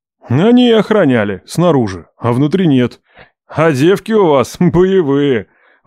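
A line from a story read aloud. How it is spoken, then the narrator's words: Sudden laughter. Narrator (Russian): вдруг засмеялся Роберт Ливанович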